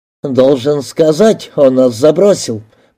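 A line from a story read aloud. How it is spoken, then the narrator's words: Grumble. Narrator (Russian): проворчал майор Суит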